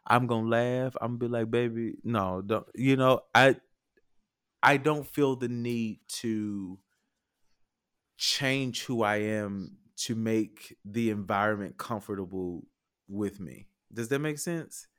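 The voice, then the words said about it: Southern US drawl. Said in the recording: “I'm a country nigga. So you gonna hear my southern drawl.”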